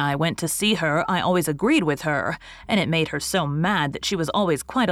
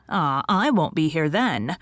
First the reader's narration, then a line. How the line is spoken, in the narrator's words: tell with a groan